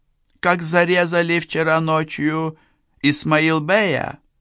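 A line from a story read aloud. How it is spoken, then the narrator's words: Cooing. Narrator (Russian): проворковала она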